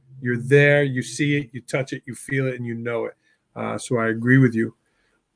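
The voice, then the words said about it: New York accent. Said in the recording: “Your accent brings me back to my parents because they were both Bronx born and raised. They still got the New York accent”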